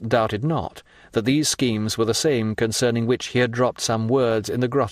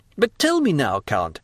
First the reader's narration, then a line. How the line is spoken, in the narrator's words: exclaimed Albert, delighted at the idea of having to chaperone so distinguished a person as Monte Cristo